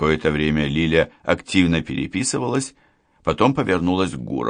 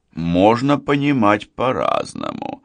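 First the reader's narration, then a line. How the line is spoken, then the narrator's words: Drawling. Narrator (Russian): протянул Гуров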